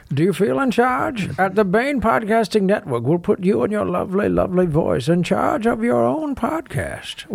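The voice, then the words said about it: Bane impression. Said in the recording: “must read in a Bane accent ... must read promo in Bane accent”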